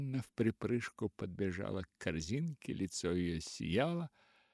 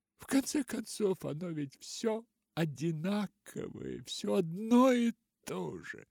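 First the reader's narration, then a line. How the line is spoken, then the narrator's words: Laughing. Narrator (Russian): Поляна засмеялась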